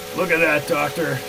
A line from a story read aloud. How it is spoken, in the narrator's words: shouted Kellogg